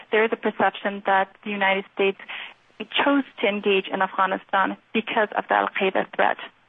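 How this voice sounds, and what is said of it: American-influenced English accent. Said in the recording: “I'm going to guess from your accent and command of the language that you've spent some time in the United States yourself.”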